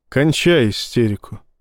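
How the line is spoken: Quiet, from behind. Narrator (Russian): тихо сказали за спиной

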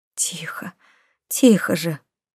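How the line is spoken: Silent desperate plea. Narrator (Russian): мысленно взмолилась

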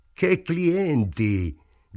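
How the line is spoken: Shouting. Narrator (Italian): gridò

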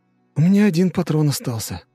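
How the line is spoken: Dejected sigh. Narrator (Russian): сокрушенно вздохнул Барти

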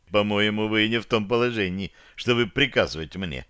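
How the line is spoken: Calm reply. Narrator (Russian): спокойно ответил я

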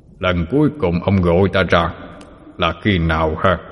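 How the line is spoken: Deep booming voice. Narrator (Vietnamese): Một giọng nói ồm ồm vang lên

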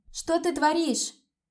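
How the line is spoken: Shout. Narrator (Russian): закричала

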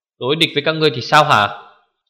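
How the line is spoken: Angry. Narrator (Vietnamese): Kiếm Tộc Thiên Phong giận dữ nói

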